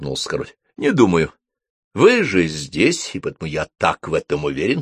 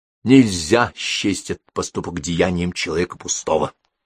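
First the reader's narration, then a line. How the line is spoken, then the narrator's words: Plain. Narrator (Russian): сказал король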